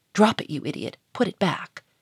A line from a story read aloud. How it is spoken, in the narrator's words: he hissed in an angry whisper